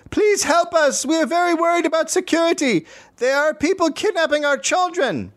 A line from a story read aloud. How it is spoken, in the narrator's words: From the back of the crowd, a woman shouted